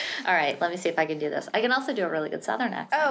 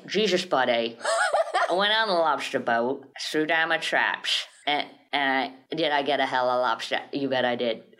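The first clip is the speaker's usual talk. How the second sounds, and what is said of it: Put-on Maine accent. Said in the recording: “here's what a Maine accent sounds like ... That's my main accent.”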